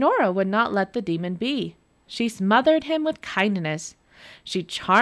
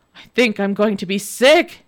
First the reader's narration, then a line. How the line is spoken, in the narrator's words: cried